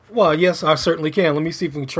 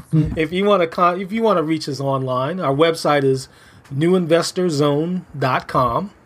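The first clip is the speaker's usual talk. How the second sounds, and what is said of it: Announcer-style radio voice. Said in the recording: “try my radio voice”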